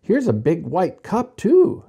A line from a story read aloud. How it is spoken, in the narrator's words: said happily